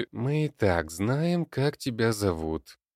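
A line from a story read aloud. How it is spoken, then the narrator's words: Hiss. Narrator (Russian): прошипел Леонид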